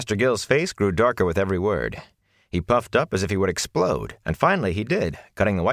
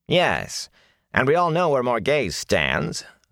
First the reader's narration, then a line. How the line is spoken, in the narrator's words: the under-officer twisted the queen's name into a sneer